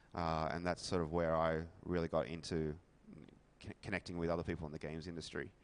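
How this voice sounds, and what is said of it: Australian accent. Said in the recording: “by my accent you may be able to tell that I'm actually not from the US ... I'm from Australia”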